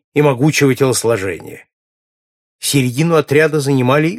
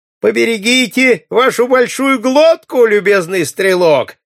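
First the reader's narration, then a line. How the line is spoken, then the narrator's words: Shouted from a crowd. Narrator (Russian): прокричал кто-то из толпы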